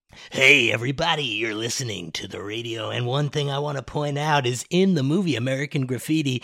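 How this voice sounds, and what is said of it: Wolfman Jack impression, radio DJ voice. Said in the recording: “do a Wolfman Jack impression”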